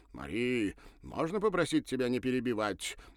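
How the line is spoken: Displeased exclamation. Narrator (Russian): недовольно воскликнул Бернар

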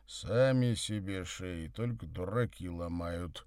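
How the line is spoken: Muttered. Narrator (Russian): буркнул Савва

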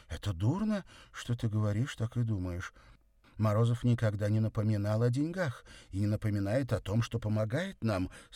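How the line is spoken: Hurt exclamation. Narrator (Russian): с обидой в голосе воскликнула она

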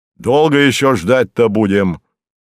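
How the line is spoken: Growling. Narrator (Russian): снова рыкнул на Круглолицева

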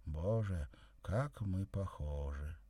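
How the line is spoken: Sad. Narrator (Russian): грустно сказала

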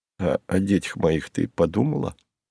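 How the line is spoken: Mock-plaintive exclamation. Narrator (Russian): дурашливо-жалобным тоном воскликнул

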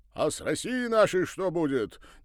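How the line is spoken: Impatient shout. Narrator (Russian): нетерпеливо выкрикнул с места казак, не успевший получить ответ от Павла Павловича в коридоре

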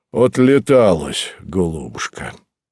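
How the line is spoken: Satisfied mutter. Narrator (Russian): удовлетворенно пробормотал он

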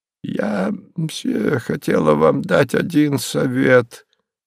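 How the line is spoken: Old woman's muffled voice. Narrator (Russian): глуховатым голосом сказала старушка

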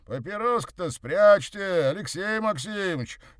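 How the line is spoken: Cheerful shout from offstage. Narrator (Russian): весело прокричал вслед ему оставшийся за кулисами Морозов

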